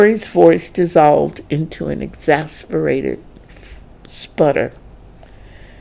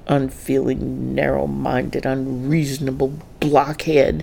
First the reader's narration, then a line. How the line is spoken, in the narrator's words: Dorrie muttered to herself as she stormed in the front door